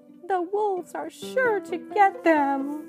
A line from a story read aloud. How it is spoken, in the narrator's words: wailed Mother Rabbit